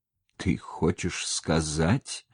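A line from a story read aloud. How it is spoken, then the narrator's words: Fearful, forced out. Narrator (Russian): Боясь своей догадки, наконец выдавил он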